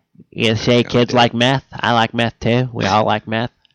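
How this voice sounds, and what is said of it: Imitates another person's voice. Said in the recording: “I don't know why I busted out a Reagan impersonation.”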